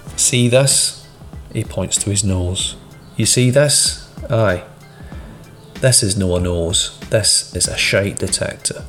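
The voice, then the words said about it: Broad Glaswegian accent. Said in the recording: “says in a broad Glaswegian accent”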